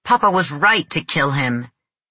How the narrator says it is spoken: He yelled

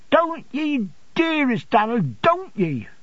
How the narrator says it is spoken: cried Mrs

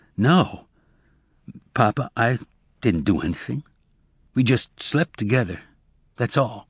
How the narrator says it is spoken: Zek blushed, and he stammered as he said

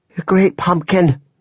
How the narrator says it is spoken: Janelle cried

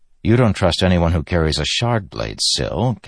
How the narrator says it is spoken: Kaladin said with a sigh

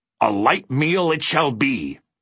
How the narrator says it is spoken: roared the bug

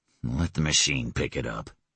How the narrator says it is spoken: he growled

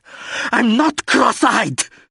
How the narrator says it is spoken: She screamed, and instantly started crying

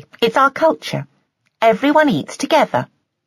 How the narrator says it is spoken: she said cheerfully

